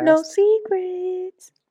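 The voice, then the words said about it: Weird put-on voice. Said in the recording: “weird voice”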